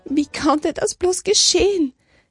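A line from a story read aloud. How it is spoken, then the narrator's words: Nurse wailing. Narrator (German): jammerte eine Schwester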